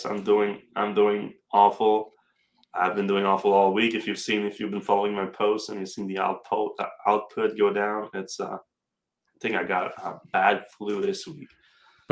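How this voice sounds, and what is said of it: Sick, congested, low-energy voice. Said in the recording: “you probably can tell from my voice ... without too much sniffling ... how I sound ... my energy levels are not extremely high”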